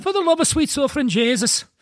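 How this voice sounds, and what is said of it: Put-on Irish accent. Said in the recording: “Can you do an Irish accent?”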